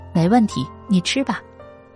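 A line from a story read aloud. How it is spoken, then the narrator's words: Smiling. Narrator (Chinese): 他笑着说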